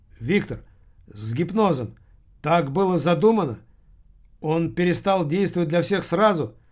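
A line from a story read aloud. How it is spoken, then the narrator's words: Shouting after someone. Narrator (Russian): крикнул ему вслед Килин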